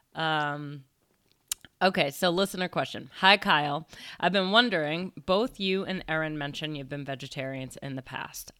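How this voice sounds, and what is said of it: Deeper voice, recovering from cold. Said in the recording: “I'm getting over a cold ... my voice is deeper than usual”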